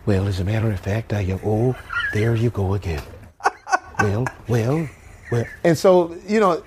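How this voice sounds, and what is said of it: Imitates another person's voice. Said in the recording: “I would do impersonations, but I would do different impersonations ... I was the only black guy doing Ronald Reagan.”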